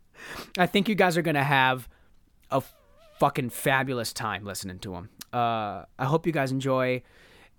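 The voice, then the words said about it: Hoarse, worn-out voice. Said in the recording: “my voice is so shot.”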